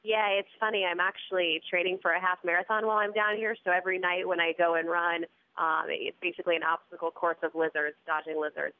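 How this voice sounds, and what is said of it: Congested, allergy-affected voice. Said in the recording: “Fighting some allergies, so I apologize for my voice.”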